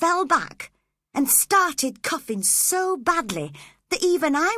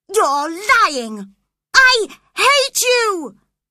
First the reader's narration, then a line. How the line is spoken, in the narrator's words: she shouted angrily